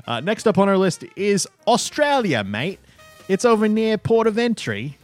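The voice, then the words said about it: Badly done put-on Australian accent. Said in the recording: “I'm probably going to get butchered for that accent.”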